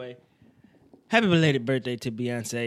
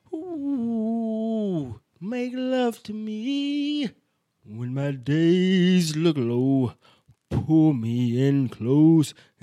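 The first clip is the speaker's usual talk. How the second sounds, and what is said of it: Sings imitating a deep-voiced singer. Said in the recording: “I was trying to sound the nigga from The Temptations ... The nigga that with the deep voice.”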